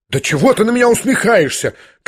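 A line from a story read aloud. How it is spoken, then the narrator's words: Unnatural female cry. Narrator (Russian): как-то неестественно вскрикнула она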